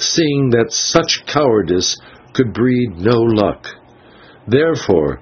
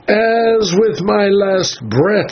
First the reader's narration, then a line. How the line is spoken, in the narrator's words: he cried